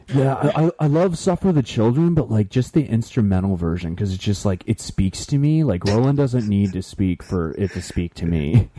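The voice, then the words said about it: Imitates a music forum fan. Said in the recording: “my impersonation of a music forum”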